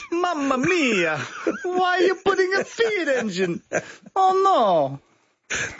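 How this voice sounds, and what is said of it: Put-on Italian accent. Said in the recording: “your impeccable Italian impersonation”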